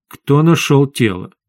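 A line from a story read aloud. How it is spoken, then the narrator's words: Very calm question. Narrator (Russian): очень спокойно спросил официант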